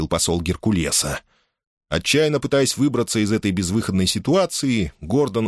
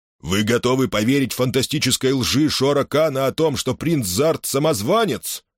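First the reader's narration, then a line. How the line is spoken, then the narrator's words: Angry roar. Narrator (Russian): гневно проревел Хел Берл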